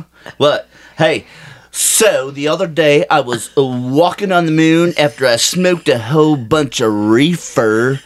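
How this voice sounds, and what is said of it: Beach surfer accent. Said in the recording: “Beach surfer voice.”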